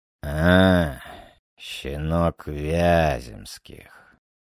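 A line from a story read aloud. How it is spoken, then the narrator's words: Hoarse smoky voice. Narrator (Russian): Голос графа был хриплым, прокуренным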